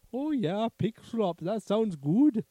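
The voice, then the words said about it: Pig character with German accent. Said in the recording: “What is he, like a Russian pig? ... No, that was German. ... German pig? ... That was my German pig impression.”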